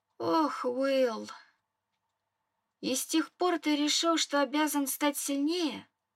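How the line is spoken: Sad realization. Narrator (Russian): догадалась печально

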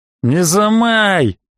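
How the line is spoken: Menacing shout. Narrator (Russian): грозно прикрикнул Леха

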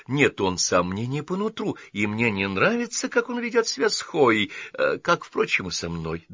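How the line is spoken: Trembling voice. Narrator (Russian): добавила она дрогнувшим голосом

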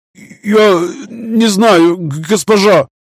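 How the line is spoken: Stammering. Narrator (Russian): заикаясь, ответил мужчина

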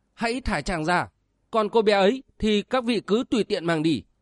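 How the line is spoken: Anguished urgent cry. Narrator (Vietnamese): Tim của Giang Thu Lăng như là bị vò xé, nàng vội kêu lên

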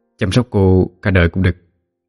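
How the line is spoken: Hesitant whisper. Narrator (Vietnamese): Thành có chút ngập ngừng, sau đó ghé vào tai Đào khẽ nói

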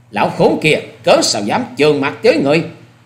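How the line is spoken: Angry loud shout. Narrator (Vietnamese): giận xông lên rồi quát lớn

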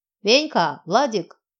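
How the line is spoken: Booming loud bark. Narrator (Russian): зычно рявкнула на весь частный сектор

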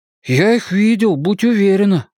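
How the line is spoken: Breathed out. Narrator (Russian): выдохнул Бен

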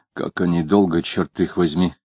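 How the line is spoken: Muttered. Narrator (Russian): пробормотал

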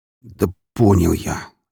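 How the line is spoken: Mutter. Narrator (Russian): пробормотал

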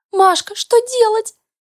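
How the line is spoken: Squeaky. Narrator (Russian): запищала Марина

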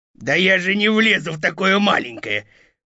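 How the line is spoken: Wolf's growl. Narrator (Russian): прорычал волк

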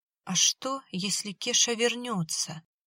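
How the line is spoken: Quiet question. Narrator (Russian): тихо спросила Марина

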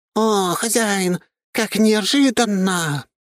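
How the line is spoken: Surprised exclamation. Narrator (Russian): удивленно воскликнула она

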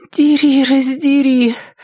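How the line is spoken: Groan. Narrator (Russian): простонала Триша главным образом для того, чтобы услышать собственный голос

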